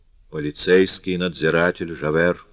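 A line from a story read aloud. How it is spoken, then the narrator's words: Calm, conciliatory objection. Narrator (Russian): возразил Мадлен примирительным и спокойным тоном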